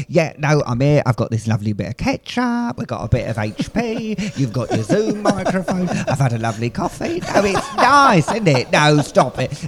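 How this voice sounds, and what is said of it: Alan Carr impression. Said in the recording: “I'll do your Alan Carr impression ... that sounds like Alan Carr ... That's brilliant. That's up there for me.”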